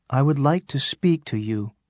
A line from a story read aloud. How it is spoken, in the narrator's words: she said